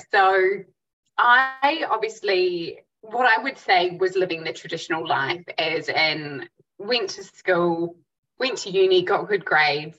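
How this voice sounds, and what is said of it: New Zealand accent. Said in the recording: “you're a Kiwi, obviously, like people can pick up your accent”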